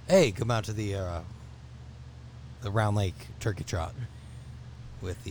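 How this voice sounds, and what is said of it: Weak radio DJ voice. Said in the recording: “That's a really lame radio voice attempt”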